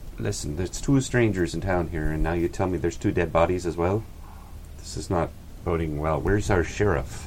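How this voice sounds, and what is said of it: Put-on Irish accent. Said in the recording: “I got Irish all of a sudden.”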